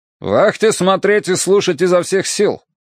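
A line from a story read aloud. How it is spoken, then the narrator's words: Loud command. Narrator (Russian): громко приказал Горцунов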